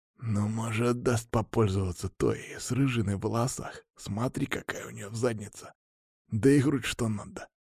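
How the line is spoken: Quiet reply. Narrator (Russian): так же тихо ответил

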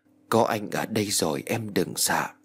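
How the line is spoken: Happy tender whisper. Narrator (Vietnamese): Văn Phi hạnh phúc thì thầm

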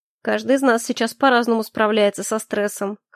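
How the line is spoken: Wry snort. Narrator (Russian): хмыкнул Калипсо

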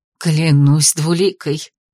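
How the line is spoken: Breathless exclamation. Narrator (Russian): выдохнула мачеха

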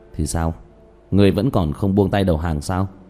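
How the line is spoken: Wry sneer. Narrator (Vietnamese): Diệp Thiếu Dương cười nhạt

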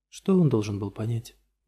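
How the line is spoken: Tired question. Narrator (Russian): устало спрашивает Молли

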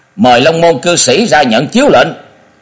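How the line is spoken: Raised voice, men. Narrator (Vietnamese): Hai hán tử lướt thân người đến cửa động, cất cao giọng chuẩn bị bước vào nói

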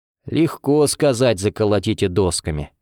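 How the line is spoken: Grumbling. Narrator (Russian): проворчал

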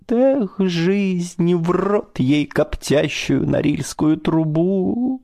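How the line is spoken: Mournful sob. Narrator (Russian): тоскливо всхлипнет

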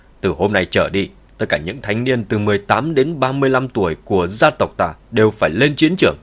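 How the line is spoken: Old man, raised voice. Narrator (Vietnamese): Ông cụ cất cao giọng

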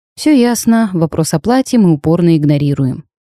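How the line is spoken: Sighing. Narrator (Russian): вздохнула я

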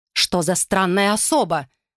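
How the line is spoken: Irritated. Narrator (Russian): раздраженно

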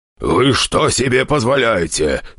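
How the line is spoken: Growling while exhaling smoke. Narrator (Russian): рычала она, выдыхая дым

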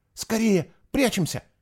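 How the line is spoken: Frightened whisper. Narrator (Russian): испуганно шепнул он

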